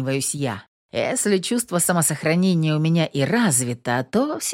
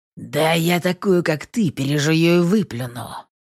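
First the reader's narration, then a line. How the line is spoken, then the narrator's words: Through gritted teeth. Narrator (Russian): Сквозь зубы цедит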